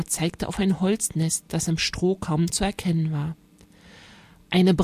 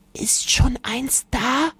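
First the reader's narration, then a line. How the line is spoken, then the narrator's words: Whispered. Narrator (German): flüsterte Luisa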